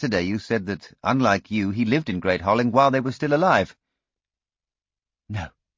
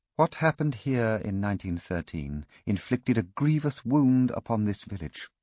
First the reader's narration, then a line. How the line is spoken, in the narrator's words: she said quietly